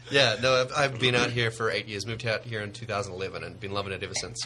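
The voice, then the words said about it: New Zealand accent. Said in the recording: “Are you from New Zealand? ... Just the accent.”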